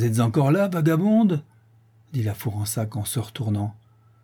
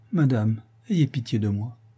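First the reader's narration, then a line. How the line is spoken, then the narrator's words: Hungry, very quiet plea. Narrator (French): la faim pressant toujours, elle dit encore tout bas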